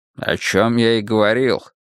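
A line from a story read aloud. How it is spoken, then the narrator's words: Grumbling. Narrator (Russian): проворчал Буллин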